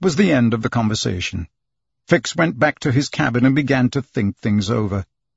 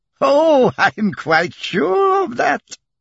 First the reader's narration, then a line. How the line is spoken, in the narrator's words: exclaimed Passepartout, laughing even more